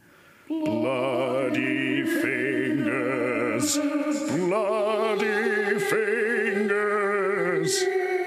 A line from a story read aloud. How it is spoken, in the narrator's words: it was moaning